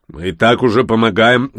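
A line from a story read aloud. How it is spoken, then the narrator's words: Joyless snort. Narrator (Russian): гном невесело хмыкнул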